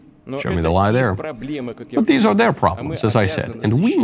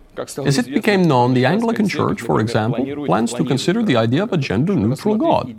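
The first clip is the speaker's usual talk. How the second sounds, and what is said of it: Put-on Russian accent, slipping. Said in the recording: “My Russian accent is getting worse the longer this goes along.”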